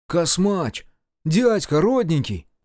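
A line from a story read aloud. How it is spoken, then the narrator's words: Exclaimed. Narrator (Russian): воскликнул Дема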